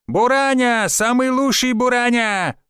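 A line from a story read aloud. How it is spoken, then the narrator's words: Loud yelling. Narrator (Russian): орал второй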